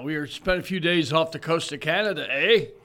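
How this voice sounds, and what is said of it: Put-on Canadian accent. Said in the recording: “Maybe I need to change my accent now.”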